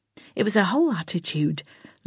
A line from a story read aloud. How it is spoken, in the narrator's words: Lana muttered crossly